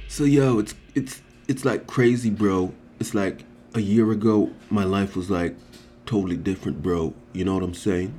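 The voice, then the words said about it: Put-on slangy accent. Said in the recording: “Lose the accent ... I'll lose the accent. Although it's not really an accent.”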